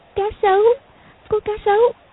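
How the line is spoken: Trembling frightened speech. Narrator (Vietnamese): Công Tôn Lục Ngạc run rẩy nói

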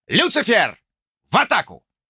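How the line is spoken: Loud shout. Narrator (Russian): громко выкрикнул

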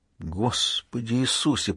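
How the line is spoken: Whispering. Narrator (Russian): прошептал морпех Майкл

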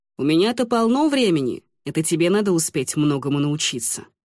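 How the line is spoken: Snorting. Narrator (Russian): хмыкнул

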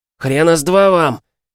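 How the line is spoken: Yelling. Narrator (Russian): заорал Миша

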